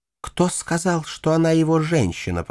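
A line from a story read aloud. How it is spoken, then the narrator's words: Hissing. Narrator (Russian): прошипела мисс Кунихан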